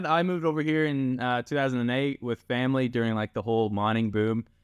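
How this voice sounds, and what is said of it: Canadian accent. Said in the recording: “you've got such a great Canadian accent still”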